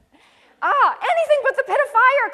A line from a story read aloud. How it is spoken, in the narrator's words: cried Peter the little liar